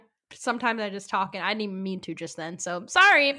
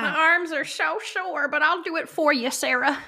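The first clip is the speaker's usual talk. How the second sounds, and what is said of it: Old person voice. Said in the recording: “You sound like my great grandma. ... My old person voices.”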